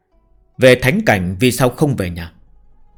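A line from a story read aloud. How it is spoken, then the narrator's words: Cold man's voice. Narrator (Vietnamese): ông ta vẫn cất giọng lạnh lùng nói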